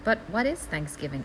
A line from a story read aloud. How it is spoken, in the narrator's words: asked Peggy